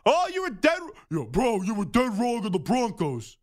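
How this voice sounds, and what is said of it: Deep-voiced impression of a friend. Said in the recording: “That's a pretty good impression. ... he's just like a big burly guy with a big beard and a deep, deep voice.”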